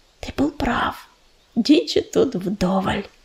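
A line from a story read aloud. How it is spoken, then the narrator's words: Whisper. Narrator (Russian): прошептала листочка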